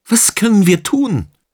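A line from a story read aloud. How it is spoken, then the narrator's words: Calling out to no one. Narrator (German): rief ohne jemanden konkret anzusprechen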